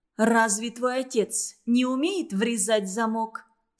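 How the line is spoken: Plain. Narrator (Russian): спросила Силе

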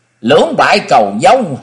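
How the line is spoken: Mad laughing shout. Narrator (Vietnamese): Công Tôn Ngọc cười như điên như dại, hét lớn

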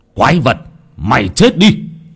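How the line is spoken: Old man roaring. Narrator (Vietnamese): Lão Nhiên gầm lên

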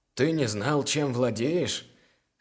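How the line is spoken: Short laugh. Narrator (Russian): хохотнул третий грабитель

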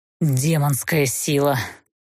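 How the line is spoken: Near growl. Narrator (Russian): почти прорычал

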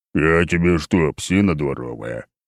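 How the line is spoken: Growled. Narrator (Russian): прорычал Михалыч

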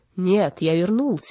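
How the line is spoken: Louder roaring beast. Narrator (Russian): еще громче проревел зверь

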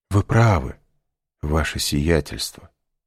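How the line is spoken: Sighing. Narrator (Russian): вздохнул Бертуччо

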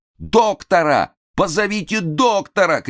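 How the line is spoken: Shouting on stage. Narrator (Russian): кричали на сцене

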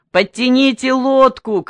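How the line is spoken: Shouting. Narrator (Russian): кричал он

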